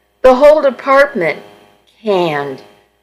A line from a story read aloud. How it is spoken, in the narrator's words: Mark said, his voice shaking